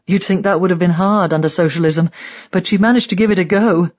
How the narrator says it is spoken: she laughs

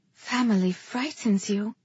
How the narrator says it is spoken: I said softly

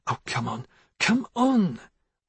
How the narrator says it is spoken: muttering

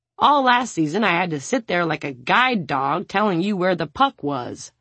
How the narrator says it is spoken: the fourth chuckles

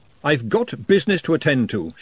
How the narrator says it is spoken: she said sternly

